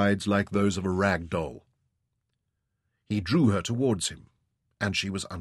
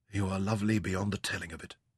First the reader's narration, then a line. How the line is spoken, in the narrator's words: he murmured, and his tone was husky